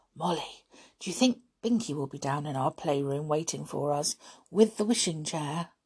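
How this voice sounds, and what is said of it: Low, quiet voice. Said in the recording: “in a low voice.”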